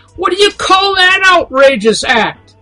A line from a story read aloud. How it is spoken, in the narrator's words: Spittle formed in the corners of his mouth as he grabbed the collar of the father, screaming